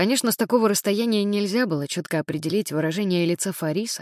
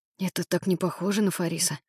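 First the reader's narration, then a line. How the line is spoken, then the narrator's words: Whispered. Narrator (Russian): прошептал Эрик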